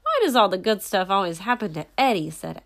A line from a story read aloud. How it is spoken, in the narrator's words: asked Andy loudly